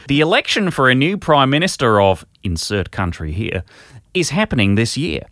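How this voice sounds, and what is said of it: Put-on accent reading a letter. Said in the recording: “Shall I read this in the requisite accent?”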